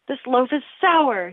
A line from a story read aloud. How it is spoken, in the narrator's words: said angrily